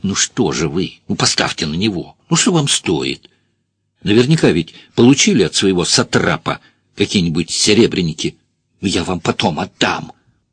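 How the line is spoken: Angry whisper. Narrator (Russian): она сердито прошептала

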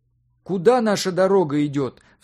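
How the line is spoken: Shouted after someone. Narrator (Russian): вслед растворяющейся в ночном сумраке фигуре крикнул директор

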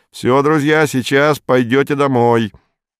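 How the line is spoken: Cheerful shout. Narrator (Russian): Вадим весело крикнул

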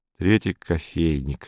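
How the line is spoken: Displeased muttering. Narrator (Russian): недовольно бормотал Саул

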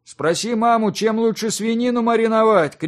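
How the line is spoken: Calling after someone. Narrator (Russian): крикнул ей вслед Йонас Хенрикосович

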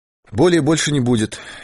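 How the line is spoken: Clear cheerful voice. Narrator (Russian): ясным веселым голосом сказал Дауге

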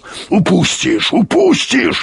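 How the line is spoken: Growling. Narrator (Russian): рычал Юрковский

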